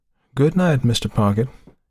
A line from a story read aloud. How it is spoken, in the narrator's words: he called sleepily